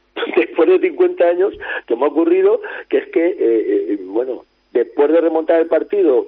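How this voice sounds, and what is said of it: Hoarse, strained voice. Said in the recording (Spanish): “no le dolía la garganta ... estoy afónico ... afónico, salí afónico del campo”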